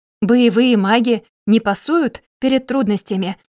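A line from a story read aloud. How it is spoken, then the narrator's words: Excited exclamation. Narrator (Russian): восторженно воскликнул Эрдан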